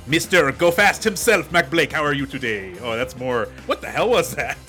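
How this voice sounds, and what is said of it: Thick French accent. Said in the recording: “his thick French accent”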